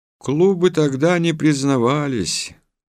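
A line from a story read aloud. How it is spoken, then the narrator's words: Sad reply. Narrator (Russian): грустно ответил он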